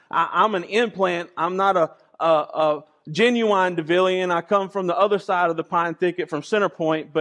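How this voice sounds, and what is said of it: Rural country accent. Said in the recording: “I get tongue-tied. I say words wrong. ... I say things with a country accent.”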